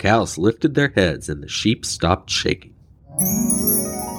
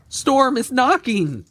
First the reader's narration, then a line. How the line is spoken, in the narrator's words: the sheep cried